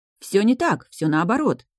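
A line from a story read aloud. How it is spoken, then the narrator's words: Exclaimed together. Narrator (Russian): воскликнули они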